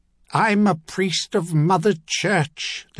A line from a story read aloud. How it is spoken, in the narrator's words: the captive thundered suddenly